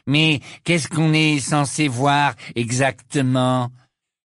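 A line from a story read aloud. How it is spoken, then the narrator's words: Mocking interruption. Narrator (French): l'interrompit Malfoy d'une voix narquoise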